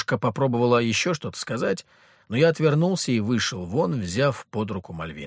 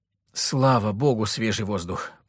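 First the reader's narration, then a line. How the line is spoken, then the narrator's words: Deep sigh, then coughing. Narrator (Russian): полной грудью вздохнула Мария и тут же закашлялась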